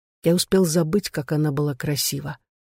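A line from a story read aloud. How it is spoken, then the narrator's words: Hoarse whisper. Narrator (Russian): произнес наконец хриплым шепотом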